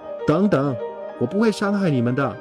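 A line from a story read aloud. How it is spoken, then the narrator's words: Calling out. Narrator (Chinese): 马特……喊了一声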